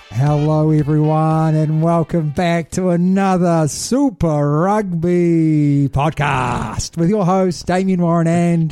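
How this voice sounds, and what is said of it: Booming boxing-announcer style delivery. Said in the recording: “You sounded like a boxing commentator. Let's get ready to rumble.”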